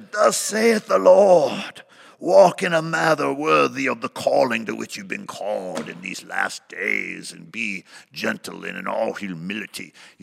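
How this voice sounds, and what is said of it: Mock prophetic voice with changed accent. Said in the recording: “put on this prophetic voice, and I changed my accent ... if I say it different”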